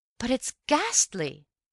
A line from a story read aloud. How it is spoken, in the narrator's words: I cried